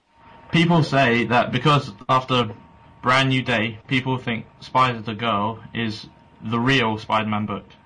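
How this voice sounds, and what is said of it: Strong accent. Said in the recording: “Your crazy accent completely confused me between that and connection.”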